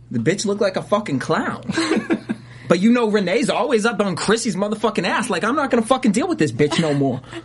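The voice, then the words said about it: Put-on New York accent. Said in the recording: “You're really good at the accents tonight. ... I mean, I'm from New York.”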